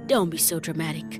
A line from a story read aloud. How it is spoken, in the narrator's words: Dad said softly